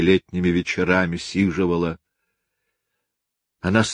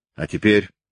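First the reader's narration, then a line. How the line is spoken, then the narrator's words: Curt, stern, hurried. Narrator (Russian): сказала она прежним отрывистым, суровым, торопливым голосом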